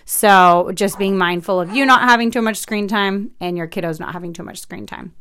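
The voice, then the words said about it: Talking really fast. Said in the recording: “I'm talking really fast.”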